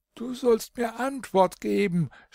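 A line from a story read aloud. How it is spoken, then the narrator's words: Angry shout. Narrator (German): schrie der König in Zorn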